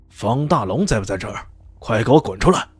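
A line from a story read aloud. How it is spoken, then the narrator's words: Roaring shout. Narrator (Chinese): 被他们这么一吼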